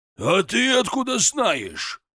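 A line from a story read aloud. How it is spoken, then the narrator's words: Roaring again. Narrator (Russian): снова взревел тренер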